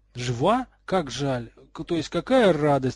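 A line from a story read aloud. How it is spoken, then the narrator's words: Exclaimed. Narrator (Russian): воскликнул Златопуст Локонс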